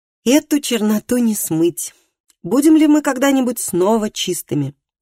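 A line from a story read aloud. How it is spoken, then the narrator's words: Sighing. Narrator (Russian): Матиас вздохнул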